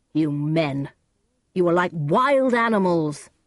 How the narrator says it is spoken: he said to them angrily

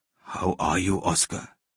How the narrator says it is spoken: asked the elder Schindler in a weak voice

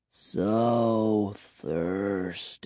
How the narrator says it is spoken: murmured

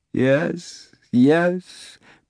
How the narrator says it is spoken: Pilate sobbed and moaned in his sleep

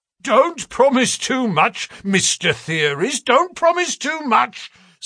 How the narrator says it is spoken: snapped the detective

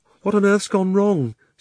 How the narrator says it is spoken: said Polly in a frightened voice, but not quite so frightened as you might expect

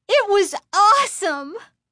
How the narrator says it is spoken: Lindy exclaimed

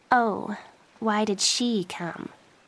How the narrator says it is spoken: Joey asked quietly

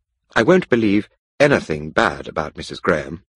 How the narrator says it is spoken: Mary Millwood said quickly

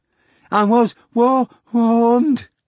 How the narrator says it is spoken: the manager replied, gasping

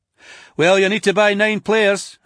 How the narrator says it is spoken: I said

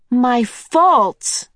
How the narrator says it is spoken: Meg cried

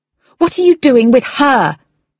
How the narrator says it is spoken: she shouted

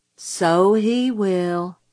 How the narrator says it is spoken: said Jim gloomily

